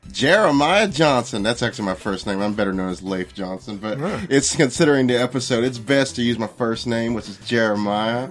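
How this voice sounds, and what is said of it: Exaggerated Texan Southern accent. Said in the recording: “a legit Texan ... This is my real accent. ... I'm overplaying it, but it is.”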